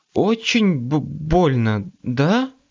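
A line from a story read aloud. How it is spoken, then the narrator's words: Stammering. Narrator (Russian): Она даже заикаться начала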